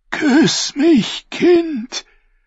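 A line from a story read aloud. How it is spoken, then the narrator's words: Dry hoarse death-rattle croak. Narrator (German): krächzte er mit einer Stimme, die so trocken und heiser klang wie ein Todesröcheln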